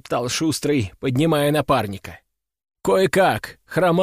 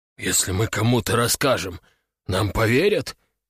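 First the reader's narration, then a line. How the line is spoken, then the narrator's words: Whispering. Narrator (Russian): наконец прошептал Вася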